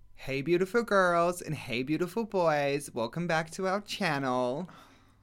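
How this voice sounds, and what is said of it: Unconvincing put-on American accent. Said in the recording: “The American accent could use some work, I think.”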